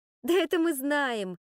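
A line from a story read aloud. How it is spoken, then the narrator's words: Laughing. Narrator (Russian): рассмеялась Надия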